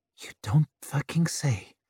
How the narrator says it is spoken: she muttered

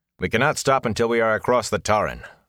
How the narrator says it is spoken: Lan said sharply

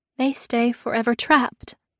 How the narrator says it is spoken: I murmured to myself

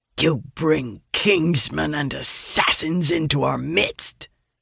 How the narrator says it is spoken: the lead soldier hisses, his eyes alight with fury

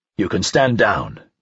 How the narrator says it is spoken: Dreyfus said

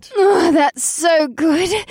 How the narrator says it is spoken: she gasped

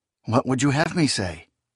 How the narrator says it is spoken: the Dunyane asked

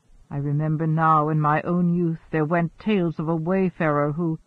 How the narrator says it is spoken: mumbled

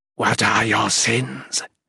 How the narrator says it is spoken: it rasped

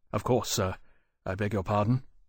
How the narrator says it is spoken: Lawrence said quietly

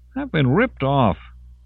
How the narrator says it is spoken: Hal whined to Amersey

